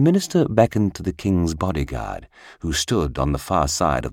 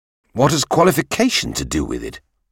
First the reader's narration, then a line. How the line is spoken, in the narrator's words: cried the king